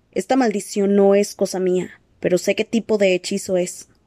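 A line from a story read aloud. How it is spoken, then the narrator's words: Growl. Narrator (Spanish): gruñó Jax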